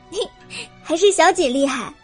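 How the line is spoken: Laughing. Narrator (Chinese): 百灵笑了

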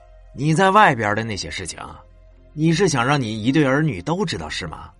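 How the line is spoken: Low hushed voice. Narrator (Chinese): 压低声音说道

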